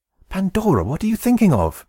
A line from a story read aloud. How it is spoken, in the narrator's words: exclaimed Epimetheus